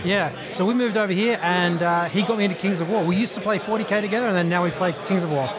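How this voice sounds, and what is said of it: Australian accent. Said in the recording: “very different accents than American accents ... From Australia originally”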